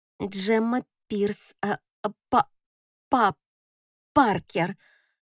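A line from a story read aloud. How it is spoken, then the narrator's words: Stuttering. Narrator (Russian): непонятно почему, заикаюсь я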